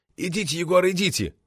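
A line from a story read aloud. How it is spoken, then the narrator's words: Pleading, flushed man. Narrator (Russian): взмолился пунцовый муж-любовник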